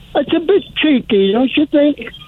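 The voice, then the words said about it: Put-on English accent. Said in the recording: “I'll go on my English accent.”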